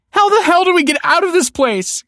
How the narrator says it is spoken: cried the woman

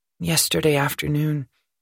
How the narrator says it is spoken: murmured Thulium

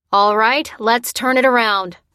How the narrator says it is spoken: shouted the ranking officer

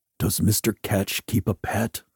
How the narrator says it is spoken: asked in a low voice

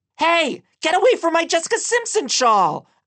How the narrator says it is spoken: shouted as I ran

